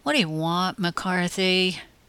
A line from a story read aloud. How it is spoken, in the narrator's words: mumbled